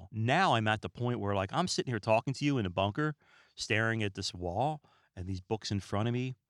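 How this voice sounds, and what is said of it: Calm, relaxed, unhurried speech. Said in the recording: “I'm extremely relaxed, and you can hear that in my voice. You can hear me calm down ... very calm and cool and collected”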